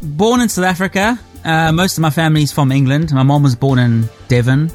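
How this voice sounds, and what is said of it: Mixed South African English accent. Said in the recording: “you've got an interesting accent. ... But you still retain some of the accent.”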